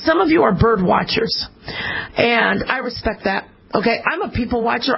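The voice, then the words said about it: Hoarse, fading voice. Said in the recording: “I know my voice. I'm losing my voice.”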